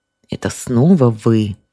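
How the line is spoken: Through gritted teeth. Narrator (Russian): Алевтина процедила сквозь зубы

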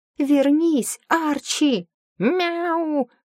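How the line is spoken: Protesting cat yowl. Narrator (Russian): протестующе взвыл кот

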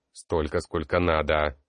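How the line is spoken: Angry reply. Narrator (Russian): зло ответил Ботлер

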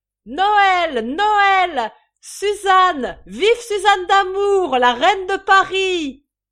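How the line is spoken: Shouting. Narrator (French): criant

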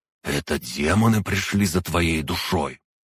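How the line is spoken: Hissed inside the head. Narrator (Russian): прошипел в моей голове

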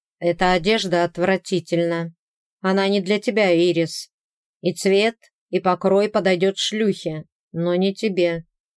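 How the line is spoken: Flat colorless tone. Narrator (Russian): обычным бесцветным тоном сказал он

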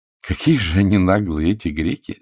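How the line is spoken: Laughing. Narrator (Russian): засмеялся Лессер

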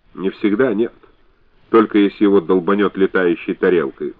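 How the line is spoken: Cold explanation. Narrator (Russian): холодно объяснила Соня

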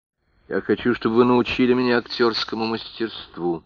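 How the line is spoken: Plain. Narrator (Russian): ответила Ноэль

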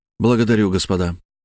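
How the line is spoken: Even, calm voice. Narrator (Russian): ровным голосом сказал я

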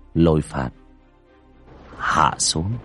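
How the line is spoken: Soft casual voice. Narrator (Vietnamese): miệng khẽ nói

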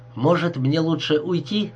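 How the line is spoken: Plain. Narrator (Russian): спросил Джордж

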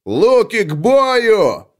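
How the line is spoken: Strained roaring shout. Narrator (Russian): проревел капрал Грей, напрягая жилы на толстой шее

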